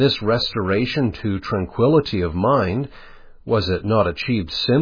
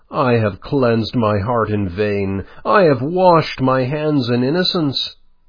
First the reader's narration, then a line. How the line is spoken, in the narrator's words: in his infirmity, exclaim